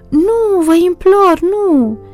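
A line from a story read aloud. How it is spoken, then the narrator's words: Desperate screaming. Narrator (Romanian): țipase cu disperare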